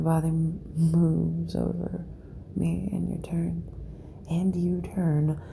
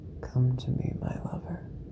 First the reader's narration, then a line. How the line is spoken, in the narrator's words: whisper again